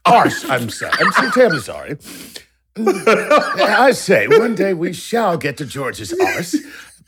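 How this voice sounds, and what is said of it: Put-on British accent. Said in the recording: “You're going to say it with a British accent.”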